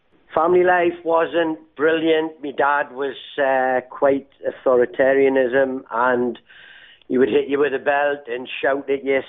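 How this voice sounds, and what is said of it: Northeast English Newcastle accent. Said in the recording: “For those who don't recognise that accent, what part of the UK are you from? ... Originally from Newcastle upon Tyne, northeast England.”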